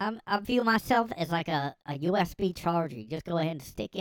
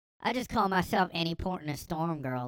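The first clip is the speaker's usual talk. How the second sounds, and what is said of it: Imitated Southern accent. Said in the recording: “She had a southern accent. She was like,”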